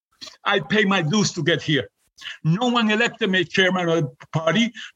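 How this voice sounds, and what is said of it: Puerto Rican accent. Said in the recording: “a Puerto Rican with an accent”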